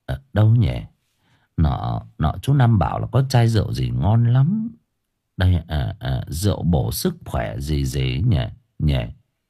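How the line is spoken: Muttering. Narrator (Vietnamese): lẩm bẩm

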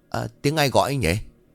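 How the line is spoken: Muttered. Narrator (Vietnamese): Bà lẩm bẩm

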